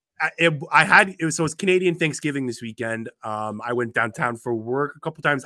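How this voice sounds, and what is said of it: Sick, rough-sounding voice. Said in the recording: “My voice might sound a little messed up ... My voice does sound bad, but the damn virus finally got to”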